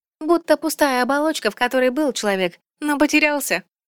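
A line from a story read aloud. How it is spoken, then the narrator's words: Cheerful purr. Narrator (Russian): весело мурлыкнула Циэль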